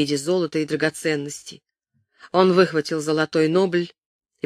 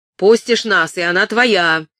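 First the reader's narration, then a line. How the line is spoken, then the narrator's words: Shouted. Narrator (Russian): крикнул коп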